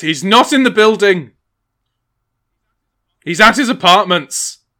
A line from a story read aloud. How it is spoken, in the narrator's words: Giles storms back in and says